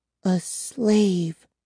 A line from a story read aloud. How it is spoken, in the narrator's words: repeated in a trembling voice